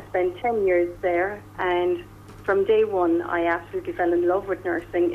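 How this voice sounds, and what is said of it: Irish accent. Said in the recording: “the Irish accent kind of charmed my patients”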